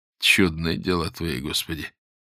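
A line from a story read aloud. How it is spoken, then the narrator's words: Mumbled. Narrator (Russian): промямлил Боголюбов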